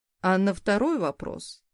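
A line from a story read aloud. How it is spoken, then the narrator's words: Man's snort. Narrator (Russian): хмыкнул мужчина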